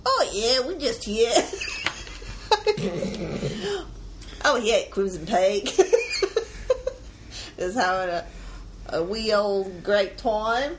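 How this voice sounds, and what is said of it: Put-on English Cockney-ish accent. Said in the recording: “do your English accent ... Why am I saying the Australian? ... you go super Cockney with your English accent”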